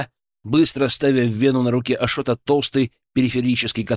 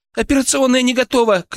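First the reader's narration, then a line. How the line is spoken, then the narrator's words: Distant shout. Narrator (Russian): крикнула от телефона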